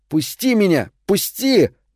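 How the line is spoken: Weak exhausted shouting. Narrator (Russian): Лейси кричал, но сил для борьбы у него не осталось

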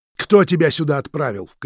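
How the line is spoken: Shout. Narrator (Russian): крикнул Роман

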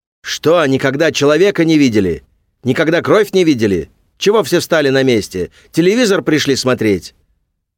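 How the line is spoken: Furious straining shout. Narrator (Russian): Святой Михаил орал так, что у него на шее выступили вены

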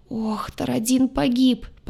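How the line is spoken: Lost soldier's moan. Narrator (Russian): потерянно простонал штурмовик

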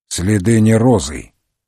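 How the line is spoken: Gloomy grumble. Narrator (Russian): пробурчал Мегре, угрюмый как никогда

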